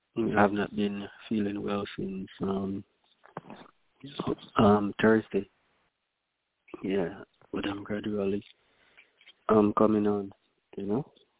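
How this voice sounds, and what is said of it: Weak, strained sick voice. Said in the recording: “My voice is not 100%. ... Your voice is gone.”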